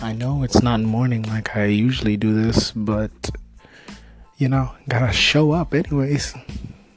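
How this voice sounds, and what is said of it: Hoarse, nearly lost voice. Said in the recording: “my voice sounds awful today. I can barely even speak... I had lost my voice”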